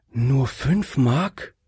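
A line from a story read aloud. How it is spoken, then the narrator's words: Lady sighing. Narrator (German): seufzte die Dame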